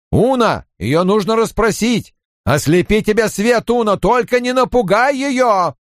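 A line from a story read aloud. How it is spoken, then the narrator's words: Loud and clear. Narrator (Russian): Инктор заговорил громко и отчетливо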